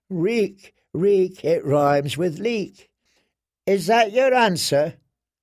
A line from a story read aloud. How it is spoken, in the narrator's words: The words rang feebly